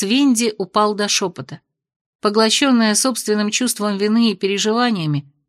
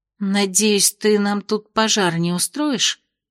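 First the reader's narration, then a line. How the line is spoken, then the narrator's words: Muttered. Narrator (Russian): пробормотала Венди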